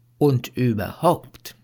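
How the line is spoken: Plain. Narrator (German): sagte er

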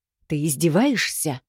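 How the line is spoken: Hissing. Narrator (Russian): Его шипение

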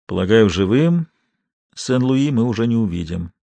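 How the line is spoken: Sighing. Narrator (Russian): вздохнул Бурдо

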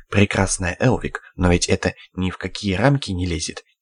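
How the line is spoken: Quiet, serious, gloomy. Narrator (Russian): тихо, серьезно сказал помрачневший красавчик

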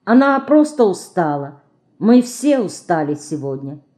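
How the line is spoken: Plain. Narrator (Russian): сказала Марина

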